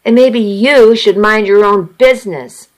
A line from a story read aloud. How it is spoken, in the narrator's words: I snapped